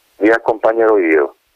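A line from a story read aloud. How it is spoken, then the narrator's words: Plain. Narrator (Italian): disse il Bernardi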